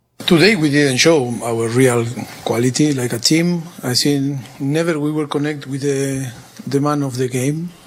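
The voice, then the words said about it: Speaks English with a foreign accent. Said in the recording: “just with the accent”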